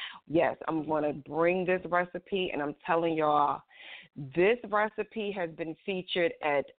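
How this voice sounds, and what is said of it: Usual voice. Nothing is said of it.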